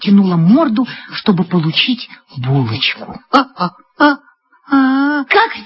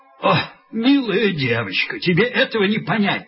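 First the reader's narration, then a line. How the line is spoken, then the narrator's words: Laughing policeman. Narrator (Russian): сказал другой полицейский и засмеялся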